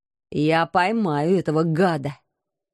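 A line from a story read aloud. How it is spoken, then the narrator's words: Furious hiss. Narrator (Russian): яростно прошипел мой муж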